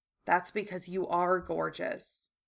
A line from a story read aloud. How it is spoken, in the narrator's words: Harry said softly